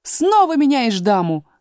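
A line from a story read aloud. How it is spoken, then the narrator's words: Yelled. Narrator (Russian): завопил Грифон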